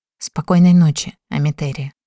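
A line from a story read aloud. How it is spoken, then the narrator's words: Whispered right into ear. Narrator (Russian): прошептал над самым ухом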